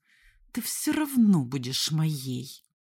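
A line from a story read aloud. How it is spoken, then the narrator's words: Through gritted teeth. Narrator (Russian): процедил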